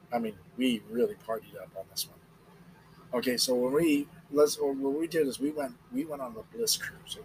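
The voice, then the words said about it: Slightly hoarse voice. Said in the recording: “my voice is a little hoarse because, man, we partied up”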